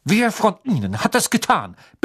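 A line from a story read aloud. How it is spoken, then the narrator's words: Barked. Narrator (German): bellte er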